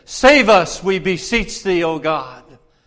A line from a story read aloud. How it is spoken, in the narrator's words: this thousands of people shouted in unison